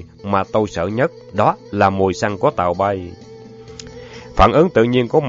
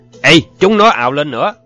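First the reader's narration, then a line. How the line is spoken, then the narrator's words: Shout. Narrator (Vietnamese): tiếng thét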